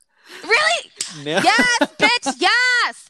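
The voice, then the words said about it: Screaming loudly. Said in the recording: “I'm screaming into this mic.”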